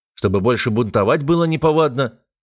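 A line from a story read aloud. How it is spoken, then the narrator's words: Snapping retort. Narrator (Russian): огрызнулся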